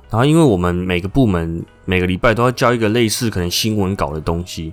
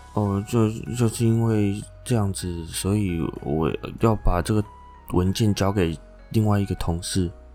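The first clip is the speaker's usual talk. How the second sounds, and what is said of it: Very quiet, soft mumbling voice. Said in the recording (Chinese): “做事情真的是就讲话很小声啊 ... 就真的这么小声”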